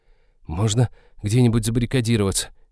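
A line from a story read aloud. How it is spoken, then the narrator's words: Hesitant suggestion. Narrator (Russian): неуверенно предложила Эвета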